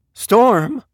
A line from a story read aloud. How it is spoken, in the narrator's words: whimpered